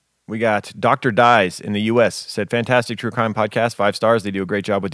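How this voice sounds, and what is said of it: Usual voice. Nothing is said of it.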